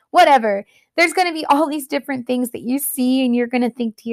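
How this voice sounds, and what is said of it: Usual voice. Nothing is said of it.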